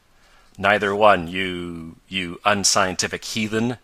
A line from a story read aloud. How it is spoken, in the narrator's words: answered Tom, with a laugh at Ned